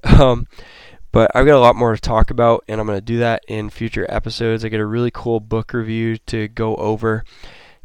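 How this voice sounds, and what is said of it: Worn-out, tired voice. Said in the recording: “as you can tell, my voice is pretty much wore out.”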